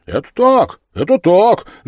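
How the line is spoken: Boys shouting in unison. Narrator (Russian): закричали в один голос все хлопцы

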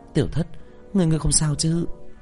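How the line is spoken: Soft breathy voice. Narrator (Vietnamese): Lâm Kiều thở nhẹ khẽ

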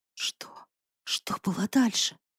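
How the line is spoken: Apprehensive whisper. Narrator (Russian): прошептала, уже понимая, что ничем хорошим его рассказ не закончится

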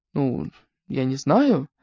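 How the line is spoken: Uncertain answer. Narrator (Russian): неуверенно ответила она

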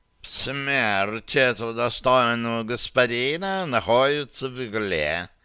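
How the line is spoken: Purring cat. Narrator (Russian): промурлыкал кот да Винчи

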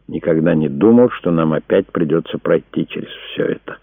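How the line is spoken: Tender. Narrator (Russian): сказал он, нежно глядя на нее

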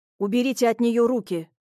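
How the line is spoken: Stern. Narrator (Russian): строго произнес

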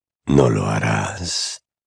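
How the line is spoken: Low voice. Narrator (Spanish): dijo Voldemort en voz baja

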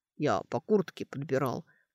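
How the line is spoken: Offended grumbling. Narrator (Russian): проворчал он, обиженный ее недоверием

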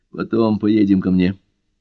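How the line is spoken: Muffled voice. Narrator (Russian): глухим голосом добавил

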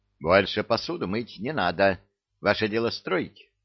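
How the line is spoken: Pleased grunt. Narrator (Russian): довольно хмыкнул и сообщил

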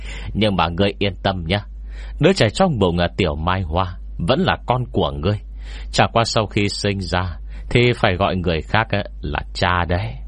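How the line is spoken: After loud laughter. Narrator (Vietnamese): Tên thổ lô cười to một trận rồi nói tiếp

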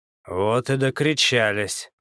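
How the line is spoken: Gloomy remark, loud gulp. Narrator (Russian): мрачно заметил Билгор, громко сглотнув

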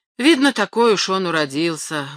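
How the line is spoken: Sighing. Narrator (Russian): вздохнув, добавил Пьер

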